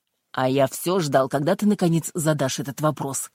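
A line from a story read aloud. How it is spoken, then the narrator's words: Snorting. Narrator (Russian): сержант фыркнул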